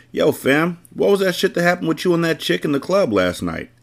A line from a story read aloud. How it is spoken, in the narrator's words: Ace asked